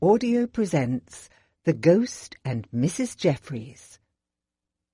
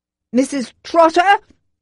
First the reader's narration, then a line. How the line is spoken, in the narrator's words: bellowed